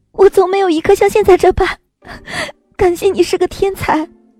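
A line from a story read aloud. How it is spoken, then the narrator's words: Joyful crying and laughing. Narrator (Chinese): 我惊叫了一声……心里竟是说不出的喜悦、自豪，又是哭又是笑道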